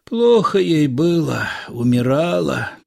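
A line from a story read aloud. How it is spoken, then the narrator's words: Forced out with effort. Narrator (Russian): выдавил Илико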